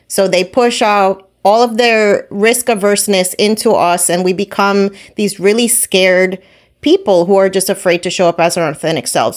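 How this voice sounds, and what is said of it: New Jersey accent. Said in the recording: “I'm from Jersey. I have an accent.”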